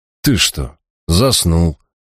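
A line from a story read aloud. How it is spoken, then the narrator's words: Irritated grumble. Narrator (Russian): проворчал я, охваченный приступом внезапного раздражения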